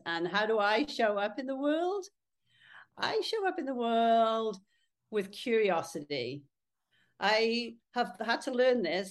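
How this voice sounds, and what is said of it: British accent. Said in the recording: “I'm going to clear up the accent. I live in Texas, but I'm from the UK... I still don't have the accent”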